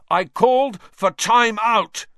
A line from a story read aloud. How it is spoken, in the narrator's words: Wood roared at his team